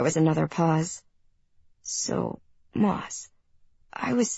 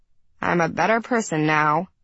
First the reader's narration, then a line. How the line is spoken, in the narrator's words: I said dryly